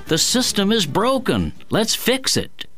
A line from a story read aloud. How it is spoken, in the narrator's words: America's economic and political inequality has led workaday Americans to exclaim